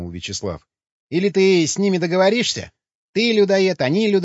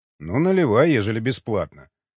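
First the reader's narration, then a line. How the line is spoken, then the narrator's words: Amused grunt. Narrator (Russian): хмыкнул варяг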